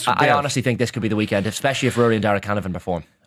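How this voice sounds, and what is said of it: Strong Irish Monaghan accent. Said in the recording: “I'm a Monaghan man. ... The accent comes right through the microphone there.”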